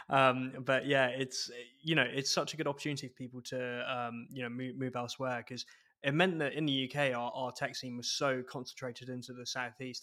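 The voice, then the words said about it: Scottish accent. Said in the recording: “It's what brought me back to Scotland finally... it's been a while since I lived down south, as you can tell from my accent.”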